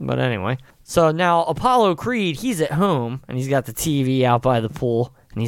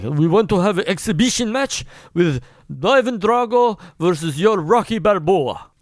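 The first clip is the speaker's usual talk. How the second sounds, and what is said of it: Put-on Russian accent. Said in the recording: “That's a pretty good Russian accent I just said. ... That was really good.”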